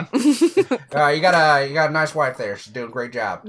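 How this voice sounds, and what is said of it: Imitates a news anchor's voice. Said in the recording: “The news anchor that she works with, I love that he changes his voice. ... That was a really good impression.”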